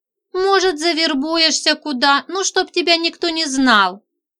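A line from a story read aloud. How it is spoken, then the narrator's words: Sighing. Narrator (Russian): вздохнула Нинка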